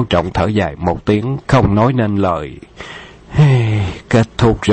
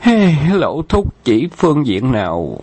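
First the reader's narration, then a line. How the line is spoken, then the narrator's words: Weary sigh. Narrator (Vietnamese): Khâu Trọng ngán ngẩm thở dài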